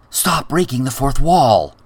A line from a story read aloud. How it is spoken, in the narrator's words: Timelin whispered